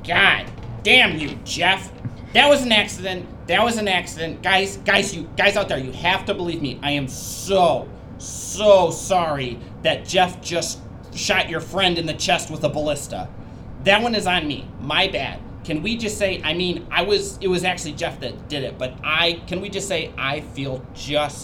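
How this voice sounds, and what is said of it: Goblin character voice. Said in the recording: “goblin voice”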